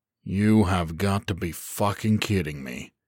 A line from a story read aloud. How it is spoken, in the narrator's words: he muttered to himself